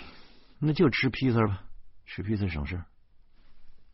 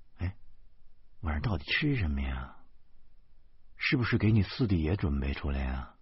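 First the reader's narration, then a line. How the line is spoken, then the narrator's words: Sighing. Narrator (Chinese): 我叹息着说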